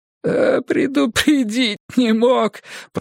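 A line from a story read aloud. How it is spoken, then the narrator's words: Whining. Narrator (Russian): проскулил он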